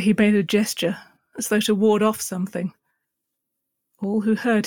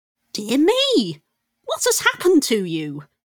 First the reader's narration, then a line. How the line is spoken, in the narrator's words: she exclaimed